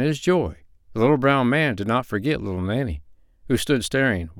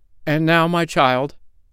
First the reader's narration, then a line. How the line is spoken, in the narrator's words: cried he